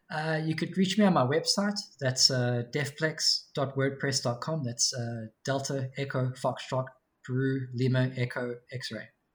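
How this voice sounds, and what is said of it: Speaks with a noticeable accent. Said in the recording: “For those of the listeners that can't understand my accent.”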